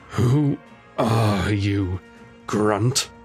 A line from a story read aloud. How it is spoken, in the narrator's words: faltered, straining his neck to see his adversary